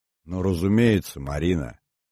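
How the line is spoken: Gentle interruption. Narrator (Russian): мягко сказал Иванов, не дослушав

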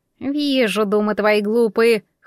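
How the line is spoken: Scornful snort. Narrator (Russian): хмыкнула Яга

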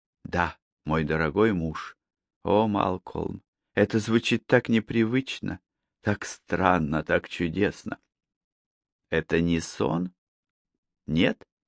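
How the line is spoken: Whispered. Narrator (Russian): прошептав

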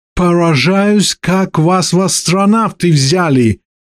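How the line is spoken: Hysterical snarl. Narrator (Russian): истерично рыкнул Джон

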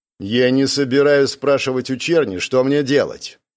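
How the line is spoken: Cold. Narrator (Russian): произнес Вальтер холодным тоном

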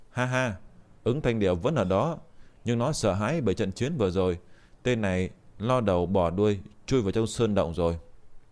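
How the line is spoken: Smiling. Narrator (Vietnamese): Triệu Kỳ Thu mỉm cười

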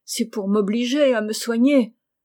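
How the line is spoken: Exclaimed. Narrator (French): s'écria Mac

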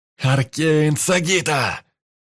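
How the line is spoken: Shouted. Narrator (Russian): прокричал я

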